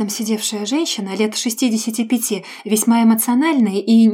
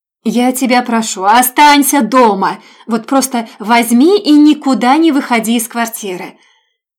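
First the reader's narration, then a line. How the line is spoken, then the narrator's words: Shouted into ear. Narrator (Russian): на ухо мне прокричали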